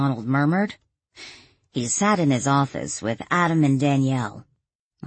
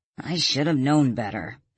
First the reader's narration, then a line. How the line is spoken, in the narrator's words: Adam grumbled